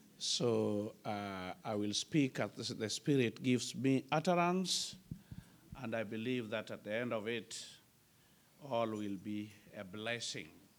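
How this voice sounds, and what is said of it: African-accented English. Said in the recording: “I hope that you will be very comfortable with my accent ... born and bred in Africa”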